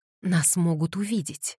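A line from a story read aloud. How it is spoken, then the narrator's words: Sharp gasp then whisper. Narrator (Russian): Кэтлин резко втянула воздух и прошептала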